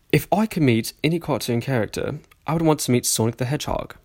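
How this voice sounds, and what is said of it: Put-on posh British accent, Australian-sounding. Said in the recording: “I'm going to start reading this in a sophisticated British accent... I don't know if I can do a British accent very well... every time I try to speak British, everyone says I sound like I'm trying to speak an Australian accent”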